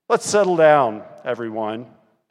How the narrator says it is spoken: said in a deep voice

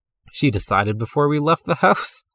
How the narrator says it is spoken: Connor said, laughing

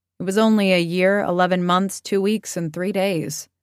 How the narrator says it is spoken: He would laugh and correct her and say

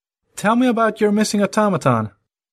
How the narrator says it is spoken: Raising his voice, Harry requested

